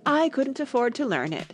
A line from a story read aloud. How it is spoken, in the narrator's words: said the Mock Turtle with a sigh